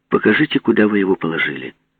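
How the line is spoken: Calm. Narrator (Russian): спокойно сказал Панков

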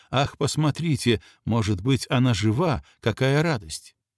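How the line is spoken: Quiet. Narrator (Russian): сказала тихо

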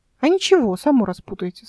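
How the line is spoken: Calm, smiling. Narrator (Russian): спокойно сказала Ольга и улыбнулась

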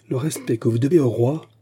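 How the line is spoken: Fiery exclamation. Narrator (French): s'écria d'Artagnan, dont les yeux flamboyèrent

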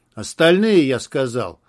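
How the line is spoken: Thundering voice. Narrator (Russian): прогремел голос Байкалова

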